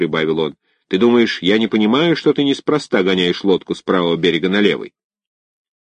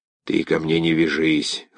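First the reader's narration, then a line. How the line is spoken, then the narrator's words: Hoarse. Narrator (Russian): хрипло сказал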